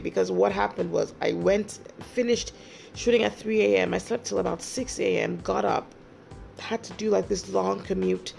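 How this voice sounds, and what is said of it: Tired-sounding voice. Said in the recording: “Like you can hear, my voice is still tired from work yesterday”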